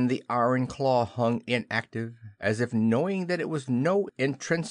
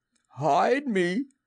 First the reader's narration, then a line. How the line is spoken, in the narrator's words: he cried hoarsely